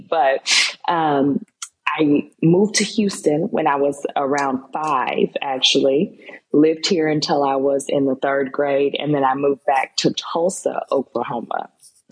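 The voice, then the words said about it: Slightly shaky, unwell voice. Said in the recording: “Excuse my voice. I've been a little under the weather for the past few days, so it's a little shaky”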